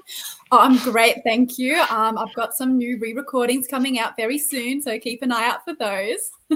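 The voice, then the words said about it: Put-on Australian accent. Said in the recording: “What happened to your accent? You sound Australian.”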